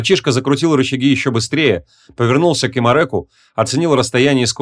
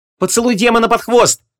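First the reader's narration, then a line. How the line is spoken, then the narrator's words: Shout. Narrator (Russian): крикнул Стыкимо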